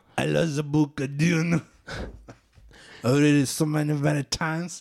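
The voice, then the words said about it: Exaggerated put-on French accent. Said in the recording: “in his French-Canadian accent that I'm not going to attempt ... Can't you tell I'm French by my outrageous accent?”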